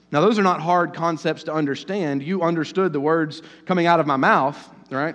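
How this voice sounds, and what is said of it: Strong rural Southern US accent. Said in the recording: “my redneck accent is just too strong”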